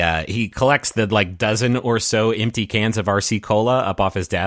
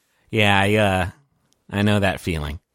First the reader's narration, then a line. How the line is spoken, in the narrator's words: He kind of sighs and he says